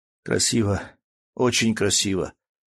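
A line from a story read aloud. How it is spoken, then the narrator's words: Strained forced words. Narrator (Russian): с трудом выдавил он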